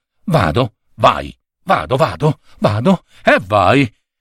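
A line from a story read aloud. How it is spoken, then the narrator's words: Mumbling. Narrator (Italian): borbottando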